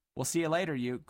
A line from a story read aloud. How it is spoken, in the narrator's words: called Dilly cheerfully